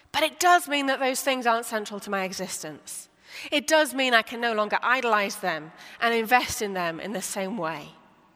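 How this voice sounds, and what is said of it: British accent. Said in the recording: “British, as you can tell by my accent”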